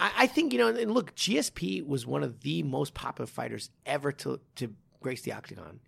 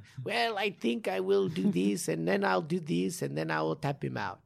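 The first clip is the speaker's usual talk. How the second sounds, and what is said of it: Imitated voice, Brazilian-sounding accent. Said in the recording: “that was my GSP impersonation. ... That was pretty good. ... It sounded more like Brazilian, but I don't know. It's dead terrible”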